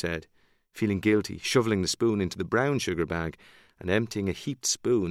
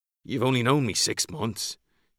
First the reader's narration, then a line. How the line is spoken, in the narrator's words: he grumbled